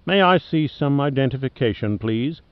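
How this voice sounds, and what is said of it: Distinctive Australian accent. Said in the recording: “he said with a distinctive Australian accent”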